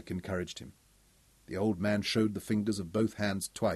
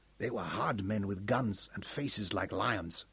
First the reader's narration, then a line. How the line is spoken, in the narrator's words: whispered